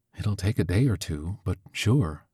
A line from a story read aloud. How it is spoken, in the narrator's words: says, then whispers